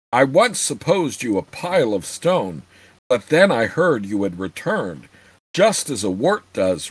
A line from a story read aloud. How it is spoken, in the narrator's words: rumbled the dwarf, allowing himself a small chuckle at his own joke